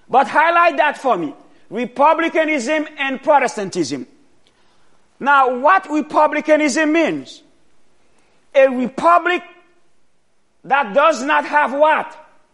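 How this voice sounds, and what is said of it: Foreign accent, not a native speaker. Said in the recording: “when you hear my accent, you say, this man does not come from here”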